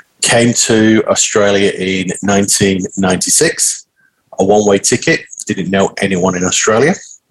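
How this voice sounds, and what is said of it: Northern English Manchester accent. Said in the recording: “born and bred in Manchester in the UK, Northern England. That's why I've got a funny accent.”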